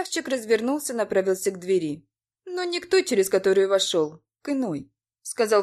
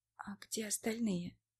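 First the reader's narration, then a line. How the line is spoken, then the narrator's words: Whispered question. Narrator (Russian): Спросила я шепотом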